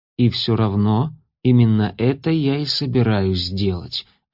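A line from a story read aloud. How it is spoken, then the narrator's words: Calm reply. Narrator (Russian): ответил Элиас спокойно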